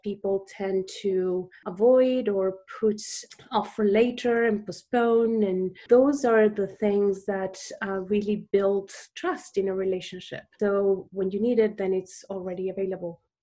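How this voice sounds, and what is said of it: Argentine-accented English. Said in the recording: “people might have noticed on this podcast that you have an accent. You grew up in Argentina.”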